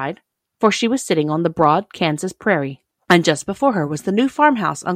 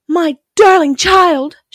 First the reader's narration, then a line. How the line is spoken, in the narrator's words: cried